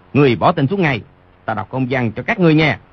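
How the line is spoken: Frightened loud shout. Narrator (Vietnamese): Tên võ quan ấy rợn tóc gáy, chỉ thấy sống lưng lạnh buốt, quát lớn

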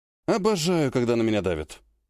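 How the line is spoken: Grumble. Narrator (Russian): проворчал Вяземский

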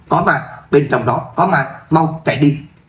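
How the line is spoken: Frightened loud shout. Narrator (Vietnamese): Cô gái sợ hãi hét lớn

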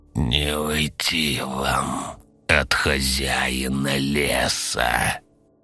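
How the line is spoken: Creaking inhuman, cold malice. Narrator (Russian): Проскрипел он голосом, в котором не было ничего человеческого, только холод и древняя злоба

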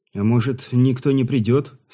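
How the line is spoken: Hopeful sigh. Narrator (Russian): с надеждой вздохнул Ануш

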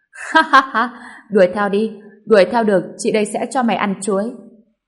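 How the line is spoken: Loud laughing. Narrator (Vietnamese): Diệp Yêu Tinh mới cười lớn, nói

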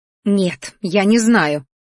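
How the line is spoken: Growl. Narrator (Russian): рыкнула тетя

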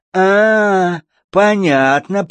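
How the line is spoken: Drawling old woman. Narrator (Russian): протянула привередливая старушка

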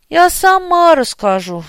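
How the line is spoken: Sighing. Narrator (Russian): вздохнула Мария

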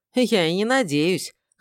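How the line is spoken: Scoffing snort. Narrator (Russian): хмыкнул я

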